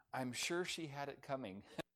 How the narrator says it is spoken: nonplussed, the ambassador leaned over and whispered

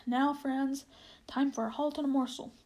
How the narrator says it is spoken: King Edmund called out

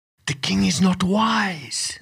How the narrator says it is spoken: whispered some frogs

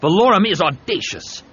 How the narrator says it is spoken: Havoc said angrily

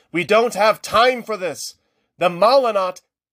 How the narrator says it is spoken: Kyral shouted

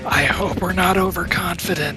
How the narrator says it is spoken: whisper

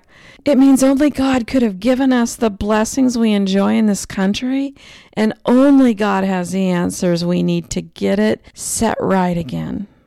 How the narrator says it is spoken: I happily shouted back

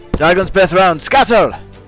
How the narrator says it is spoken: yell

